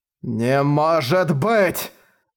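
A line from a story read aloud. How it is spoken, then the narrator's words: Forced out. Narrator (Russian): выдавил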